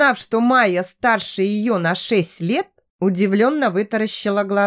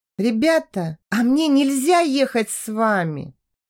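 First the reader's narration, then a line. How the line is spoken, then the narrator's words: Timid question. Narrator (Russian): Робко поинтересовалась Майя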